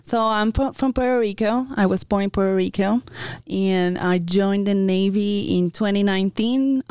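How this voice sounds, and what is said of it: Noticeable non-native accent. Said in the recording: “So I sense an accent here.”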